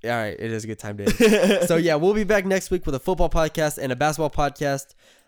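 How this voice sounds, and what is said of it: Worn-out, strained voice. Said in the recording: “my voice is so shot”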